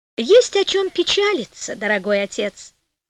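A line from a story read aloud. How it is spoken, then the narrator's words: Cheerful. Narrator (Russian): весело сказала Пантагеро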